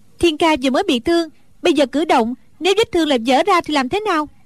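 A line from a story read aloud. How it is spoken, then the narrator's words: Angry. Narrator (Vietnamese): Đinh Đan tức giận nói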